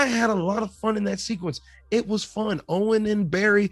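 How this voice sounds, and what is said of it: Usual voice. Nothing is said of it.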